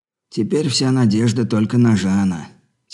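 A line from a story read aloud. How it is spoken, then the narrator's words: Heavy sigh. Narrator (Russian): тяжко вздохнув, проговорил Джефф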